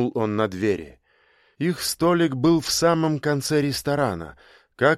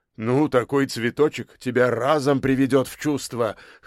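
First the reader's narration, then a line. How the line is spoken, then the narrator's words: Short laugh. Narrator (Russian): хохотнул Збруев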